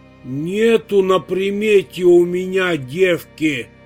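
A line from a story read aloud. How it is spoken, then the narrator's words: Angry grumble. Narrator (Russian): Сердито пробурчала Матрёна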